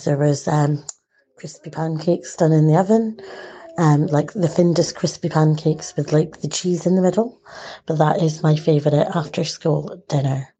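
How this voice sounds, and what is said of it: Partly Scottish mixed accent. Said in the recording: “I could really hear that accent ... some of it is from Scotland, but I think some of it's from elsewhere”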